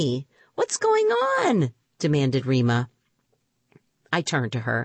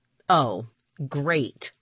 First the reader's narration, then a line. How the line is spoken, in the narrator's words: I snapped